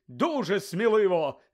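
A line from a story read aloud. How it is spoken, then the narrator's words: Shouted. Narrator (Ukrainian): закричав Бегмен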